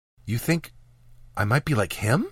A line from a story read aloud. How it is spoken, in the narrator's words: asked quietly